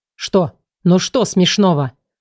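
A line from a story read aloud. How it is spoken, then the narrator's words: Growling. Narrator (Russian): зарычал он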